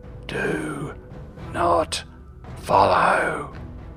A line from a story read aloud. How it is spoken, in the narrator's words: the dragon growled